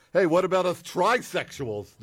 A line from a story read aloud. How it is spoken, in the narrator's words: They yelled